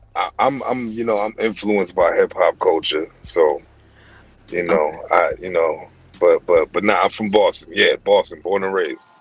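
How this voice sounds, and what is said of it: Slight New York accent. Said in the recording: “it sounds, am I hearing a New York accent? ... it sounded a little bit like New York to me.”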